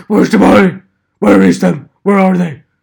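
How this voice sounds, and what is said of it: Batman character voice. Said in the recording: “I'm not saying that I do a good Batman impression”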